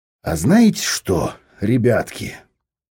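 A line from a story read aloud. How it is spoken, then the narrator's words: Thoughtful drawl. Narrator (Russian): задумчиво протянул Виктор Егорович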